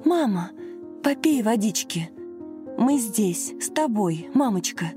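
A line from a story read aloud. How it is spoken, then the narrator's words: Anxious whisper. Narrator (Russian): взволнованно шептала Лена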